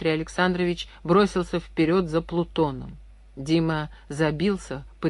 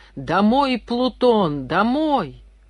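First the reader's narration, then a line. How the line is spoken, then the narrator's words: Full-lunged shout. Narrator (Russian): во всю силу своих легких он крикнул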